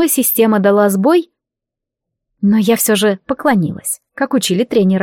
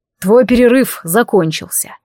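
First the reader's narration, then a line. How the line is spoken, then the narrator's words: Plain. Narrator (Russian): сказал Самоэль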